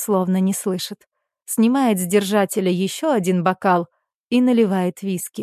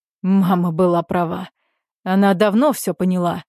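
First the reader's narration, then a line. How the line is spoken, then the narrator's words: Hoarse speech. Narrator (Russian): проговаривает хрипло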